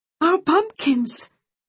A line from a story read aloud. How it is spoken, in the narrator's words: she sobbed